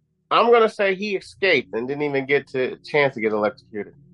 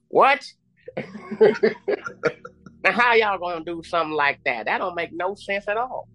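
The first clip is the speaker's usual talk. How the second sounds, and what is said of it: Put-on Southern accent. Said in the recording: “That's where the good Southern accent would have came in.”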